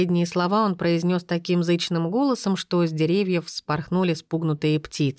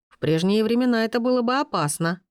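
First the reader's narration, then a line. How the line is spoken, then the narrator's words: Snorting. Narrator (Russian): наш спутник хмыкнул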